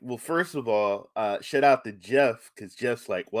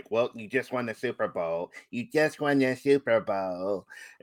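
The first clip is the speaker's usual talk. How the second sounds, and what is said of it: Imitates another person's voice. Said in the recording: “Great impression”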